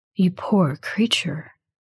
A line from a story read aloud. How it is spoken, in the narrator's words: he says softly